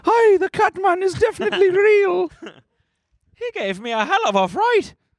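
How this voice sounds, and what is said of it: Put-on Scottish or Irish accent. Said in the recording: “You got to do the accent now. ... This is in Scotland? ... Irish or dude.”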